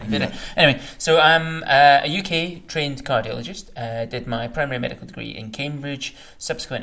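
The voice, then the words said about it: Speaks with a noticeable accent. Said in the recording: “who has a funny accent ... My accent may be funny.”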